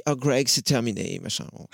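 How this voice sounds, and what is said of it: Put-on American accent in French. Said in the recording (French): “Avec un accent... à l'américaine”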